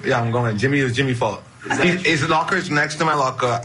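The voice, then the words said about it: Slight Bahamian accent, fast talking. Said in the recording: “The way he just talks is hilarious. That's so fast. It's so obvious he's from the Bahamas. He's got a little bit of accent there.”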